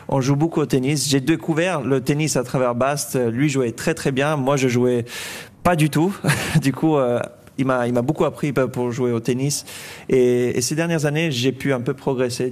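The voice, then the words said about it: Slight Swiss-French accent, Federer-like pace. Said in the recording (French): “tu parles comme Roger Federer, un peu ... Il y a un accent comme ça, avec le débit, comme ça ... Avec le même débit, comme ça ... La vitesse de parole. Et puis un peu, un tout léger petit accent”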